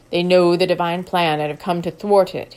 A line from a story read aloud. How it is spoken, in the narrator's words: he said in a deep, confident voice